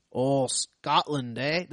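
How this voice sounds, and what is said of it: Bad attempt at Scottish accent. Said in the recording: “That's not a Scottish accent... that horrible accent... my awful accent”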